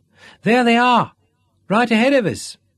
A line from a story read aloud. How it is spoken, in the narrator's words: exclaimed immediately